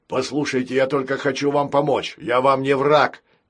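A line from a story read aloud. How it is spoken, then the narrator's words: Pirate shouting. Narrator (Russian): крикнул пират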